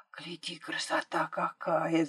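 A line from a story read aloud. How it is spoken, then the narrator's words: Whisper. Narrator (Russian): зашептала Машка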